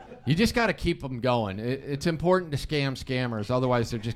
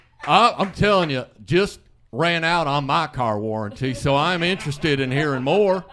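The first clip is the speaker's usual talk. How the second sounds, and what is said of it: Put-on Southern drawl. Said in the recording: “you always talk in a southern drawl ... So you just do your Argus Hamilton impression?”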